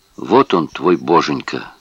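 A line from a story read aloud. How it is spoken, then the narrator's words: Muttered. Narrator (Russian): пробормотал он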